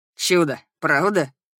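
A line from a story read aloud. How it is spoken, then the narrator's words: Grumble. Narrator (Russian): проворчал Драмель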